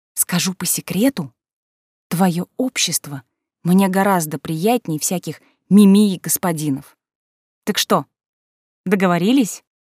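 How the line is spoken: Whisper in ear. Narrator (Russian): шепнула ему на ухо

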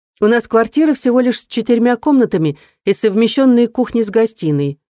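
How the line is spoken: Plain. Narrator (Russian): сказала Эмили

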